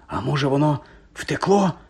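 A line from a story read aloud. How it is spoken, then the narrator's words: Whisper. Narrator (Ukrainian): прошепотів Гаррі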